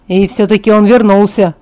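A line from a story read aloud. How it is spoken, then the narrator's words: Grumbling. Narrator (Russian): пробурчал Джейкоб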